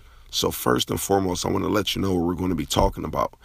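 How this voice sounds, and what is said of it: Hoarse, strained voice. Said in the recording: “excuse my hoarse voice ... I did so much talking that I sort of lost my voice.”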